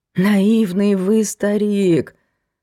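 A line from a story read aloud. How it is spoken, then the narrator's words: Sudden whimper. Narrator (Russian): захныкал вдруг Глеб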